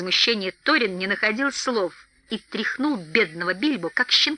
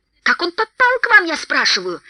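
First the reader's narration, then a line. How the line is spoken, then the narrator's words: Rising angry shout. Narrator (Russian): с нарастающим гневом закричал Торин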